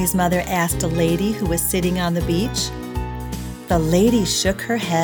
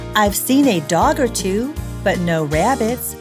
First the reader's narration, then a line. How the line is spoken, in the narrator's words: she answered kindly